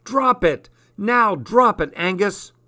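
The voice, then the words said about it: Stern commanding voice. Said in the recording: “in my sternest voice”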